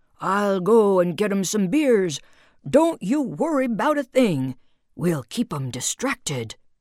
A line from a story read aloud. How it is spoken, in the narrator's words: Uncle Fernie, in cabin 8, who did not possess an inside voice, bellowed into the walkie-talkie